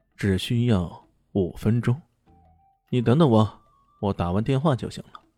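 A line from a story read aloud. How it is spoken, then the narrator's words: Calm, indifferent. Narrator (Chinese): 李炫淡淡的说道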